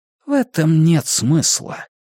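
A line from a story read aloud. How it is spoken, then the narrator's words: Gentle. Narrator (Russian): мягко покачал головой воин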